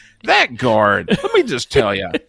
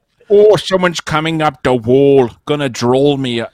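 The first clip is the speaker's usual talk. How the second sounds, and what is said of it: Put-on Irish accent. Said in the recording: “That's not the right Egyptian accent. ... that's an Irishman.”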